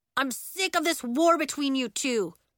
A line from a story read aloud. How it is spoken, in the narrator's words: yelled Elliot through the door